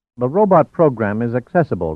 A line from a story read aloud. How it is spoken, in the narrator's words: replied Kurojima